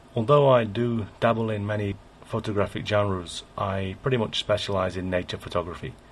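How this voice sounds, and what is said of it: English accent. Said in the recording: “You can probably guess from my accent, though, that I was born in England.”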